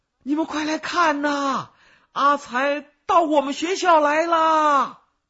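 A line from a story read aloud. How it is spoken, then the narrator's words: Shouting, voice cracking. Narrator (Chinese): 他在里面大喊，嗓音都变了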